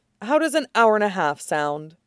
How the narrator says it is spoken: sighs in relief

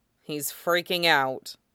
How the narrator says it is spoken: Wolfgang sighs

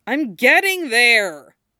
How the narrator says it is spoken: Ron objected loudly

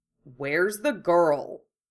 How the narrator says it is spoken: Hiei asked gruffly

